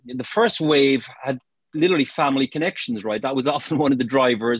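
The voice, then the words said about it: Irish accent. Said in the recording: “you've picked up the accent. I'm from Ireland originally.”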